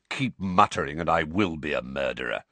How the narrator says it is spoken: said Sirius irritably

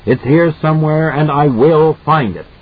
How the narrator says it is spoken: he screams at the audience

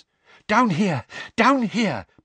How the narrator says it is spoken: panted Mr

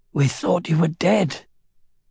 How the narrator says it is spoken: in a hoarse voice said

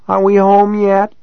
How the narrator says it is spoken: Kai almost moaned

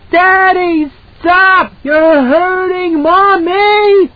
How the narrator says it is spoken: He screamed piercingly, a high and crystal sound that she heard from far off

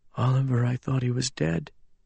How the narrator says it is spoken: he said, so faintly I almost didn't hear him

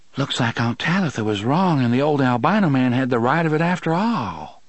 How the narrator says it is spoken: Susanna said in an awed voice

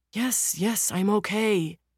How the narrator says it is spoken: the younger man groans

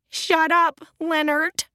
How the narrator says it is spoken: Annalena sobbed

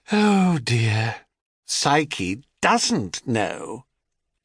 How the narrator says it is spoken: Calanthe responded with a sound that was something between a titter and a sigh

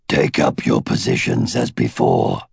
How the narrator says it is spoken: Glader rumbled

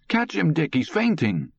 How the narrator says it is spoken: Far away, echoing, he heard his mother cry sharply

